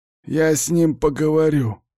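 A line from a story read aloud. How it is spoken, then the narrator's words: Promising. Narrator (Russian): обещает мне Сиплый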